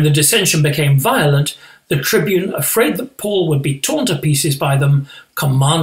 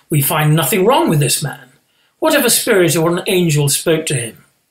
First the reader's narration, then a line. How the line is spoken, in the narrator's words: Then a great clamour arose, and some of the scribes of the Pharisees' party stood up and contended sharply